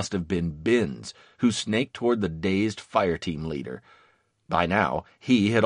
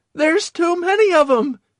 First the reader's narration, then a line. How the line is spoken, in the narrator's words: he cried